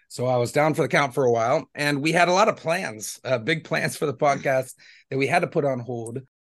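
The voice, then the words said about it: Voice still sounds sick. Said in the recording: “you could probably still hear it in my voice ... I got crazy sick ... bronchitis or pneumonia”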